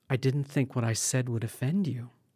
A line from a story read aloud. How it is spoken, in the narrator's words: a bewildered Constance murmuring apologetically